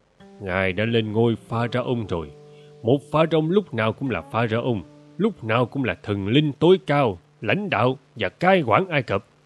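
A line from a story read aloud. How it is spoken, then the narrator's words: Stern quiet reminder. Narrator (Vietnamese): Smenke nghiêm giọng nhắc khẽ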